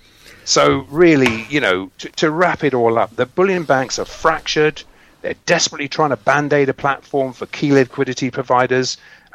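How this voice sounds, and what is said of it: English accent. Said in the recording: “You're English, obviously. I can tell by your accent.”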